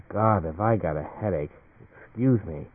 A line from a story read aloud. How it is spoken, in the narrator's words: To himself, he muttered